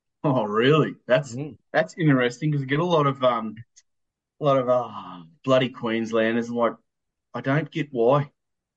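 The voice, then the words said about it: Queensland Australian accent. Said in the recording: “the Queensland accent.”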